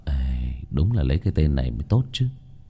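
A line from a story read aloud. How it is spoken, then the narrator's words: Musing mutter. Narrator (Vietnamese): Vương Bình vuốt vuốt cằm lẩm bẩm nói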